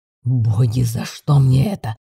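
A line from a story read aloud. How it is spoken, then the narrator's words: Grumble. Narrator (Russian): Пробурчал ящер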